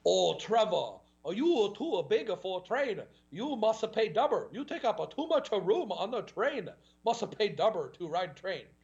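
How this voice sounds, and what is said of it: Exaggerated mock Asian accent. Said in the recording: “in the Asian accent ... butchering their Asian accent”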